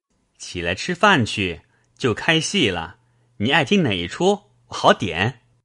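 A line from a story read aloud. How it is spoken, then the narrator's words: Laughing. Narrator (Chinese): 宝玉笑道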